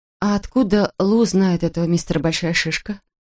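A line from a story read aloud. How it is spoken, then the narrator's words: Plain. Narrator (Russian): спросила она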